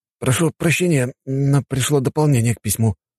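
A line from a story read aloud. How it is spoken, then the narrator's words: Hesitant speech. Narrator (Russian): неуверенно проговорил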